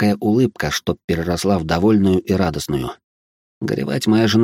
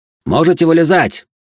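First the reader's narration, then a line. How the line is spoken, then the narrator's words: Shouted. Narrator (Russian): прокричал я третьекурсникам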